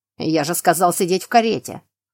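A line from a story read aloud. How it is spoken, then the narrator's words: Growl. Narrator (Russian): прорычал Роналд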